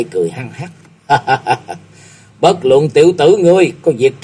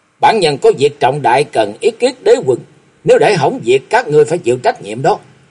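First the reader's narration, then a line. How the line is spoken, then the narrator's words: Loud commanding shout. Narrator (Vietnamese): Chàng quát lớn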